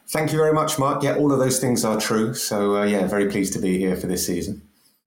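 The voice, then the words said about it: London accent. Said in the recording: “a London accent ... London accent, mate, I'll tell you what, that's good because at least everyone will be able to understand you.”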